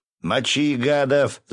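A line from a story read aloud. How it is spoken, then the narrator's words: Yelling. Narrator (Russian): заорал он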